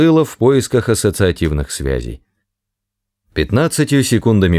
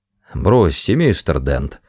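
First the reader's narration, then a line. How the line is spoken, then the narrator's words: Gloomy mumbling. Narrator (Russian): уныло бубнил мистер Просер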